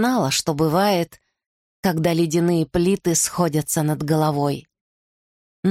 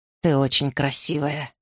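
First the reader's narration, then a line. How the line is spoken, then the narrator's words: Husky. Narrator (Russian): хрипло сказал Арден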